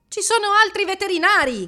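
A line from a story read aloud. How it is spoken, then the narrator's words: Shouting. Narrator (Italian): gridò Dario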